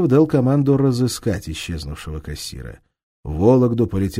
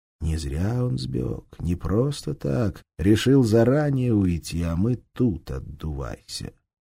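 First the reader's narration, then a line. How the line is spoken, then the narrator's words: Undertone. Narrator (Russian): Амелюстый вполголоса сообщил Титкину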